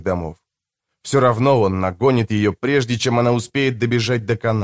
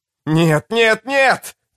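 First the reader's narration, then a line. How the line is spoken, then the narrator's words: Shouting. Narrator (Russian): кричал Сим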